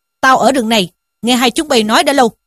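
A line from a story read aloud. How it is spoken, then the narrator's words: Monk's shout. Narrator (Vietnamese): một vị hòa thượng quát rằng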